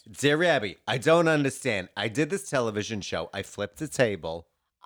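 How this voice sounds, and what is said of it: Put-on New Jersey accent. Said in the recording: “Now read that with a New York accent, New Jersey.”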